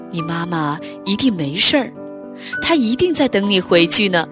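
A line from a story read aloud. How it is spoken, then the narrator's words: Gentle. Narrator (Chinese): 霸王龙温柔地说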